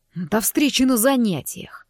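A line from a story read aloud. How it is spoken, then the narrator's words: Almost growling. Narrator (Russian): чуть ли не прорычал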